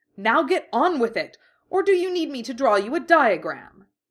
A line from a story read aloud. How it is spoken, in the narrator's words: Dorian snarled